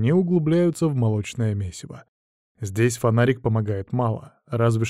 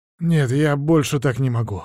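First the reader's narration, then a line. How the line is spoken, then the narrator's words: Artist's sudden hoarse rasp. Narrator (Russian): вдруг хрипит художник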